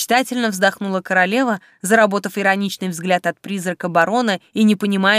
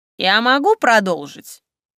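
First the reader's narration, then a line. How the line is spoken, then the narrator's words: Snide question. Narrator (Russian): ехидно уточнил барон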